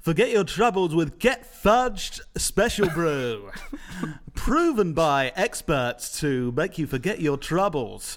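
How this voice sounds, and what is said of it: Radio presenter ad voice. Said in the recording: “you got to do your radio voice ... sound like a radio presenter talking about a product”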